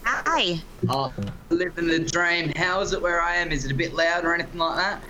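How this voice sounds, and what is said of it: Speaks with a noticeable accent. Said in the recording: “Your accent”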